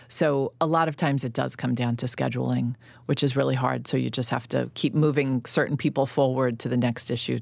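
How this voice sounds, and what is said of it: Slight New York accent. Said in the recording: “when I hear your voice, you have a little bit of that. You have an accent ... I sound like a New Yorker ... I mean, a little bit”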